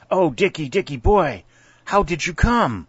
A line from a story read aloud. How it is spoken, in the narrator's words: exclaimed